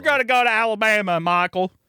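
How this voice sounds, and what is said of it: Exaggerated Southern country accent. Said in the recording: “That is a great Sandra Bullock country accent impression.”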